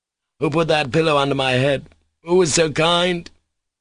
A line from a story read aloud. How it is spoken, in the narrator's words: he cried with a sort of ecstatic gratitude and tears in his voice, as though some great kindness had been shown him